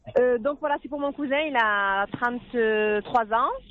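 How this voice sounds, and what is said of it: Southern French accent. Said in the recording (French): “On a bien un peu d'accent du soleil, là. ... c'est l'accent du sud”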